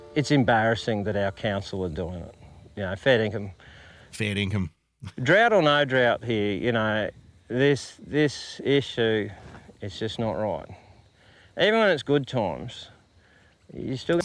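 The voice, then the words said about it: Australian country bush accent. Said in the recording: “that bush accent. I love it.”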